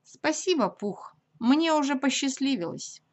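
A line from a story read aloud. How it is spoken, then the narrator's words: Glum. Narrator (Russian): Уныло ответил Ия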